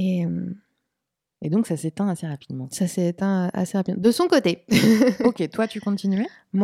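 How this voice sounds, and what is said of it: Usual voice. Nothing is said of it.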